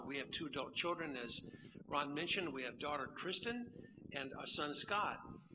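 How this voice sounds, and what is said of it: Central North Carolina accent. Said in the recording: “this accent comes from, that area, middle part of North Carolina”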